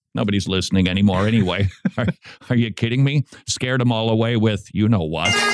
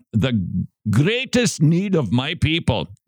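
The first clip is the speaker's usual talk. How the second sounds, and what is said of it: Put-on accent. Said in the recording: “Jimmy, do you think I should stick with the accent?”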